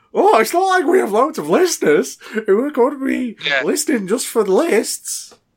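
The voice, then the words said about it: Imitates another person's voice. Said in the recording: “I'll do my Dave impression of what Dave said ... Can't do a southern accent ... Thank you for the slightly and completely unoffensive impression of ... Me.”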